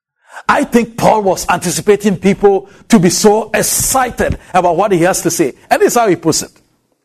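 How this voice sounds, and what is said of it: African accent. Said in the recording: “in my strange African accent”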